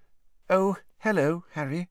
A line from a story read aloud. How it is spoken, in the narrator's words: she said in a brittle voice